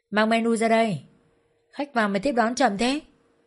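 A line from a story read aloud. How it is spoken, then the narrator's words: Throat-clearing, blustering shout. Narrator (Vietnamese): chúng hắng giọng quát tháo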